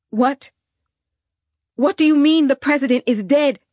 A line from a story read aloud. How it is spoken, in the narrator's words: I cried out